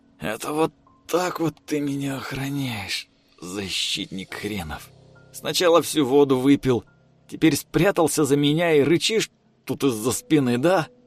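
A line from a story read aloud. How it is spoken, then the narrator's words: Quiet. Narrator (Russian): Тихо сказал Артем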